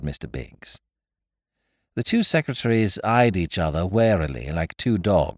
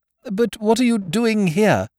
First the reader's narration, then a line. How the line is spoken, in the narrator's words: moaned Mr